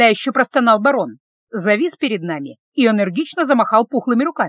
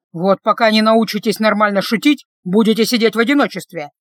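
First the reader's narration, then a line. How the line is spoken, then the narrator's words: Irritated bark. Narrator (Russian): раздраженно рявкнул Люк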